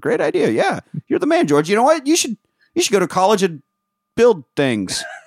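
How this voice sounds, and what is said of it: Old-timey movie star voice impression. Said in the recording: “you sound like an old timey Sean Connery ... That's what Jimmy Stewart sounds like ... my Jimmy Stewart impression”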